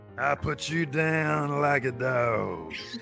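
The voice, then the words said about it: Undertaker impression. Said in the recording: “in his Undertaker voice”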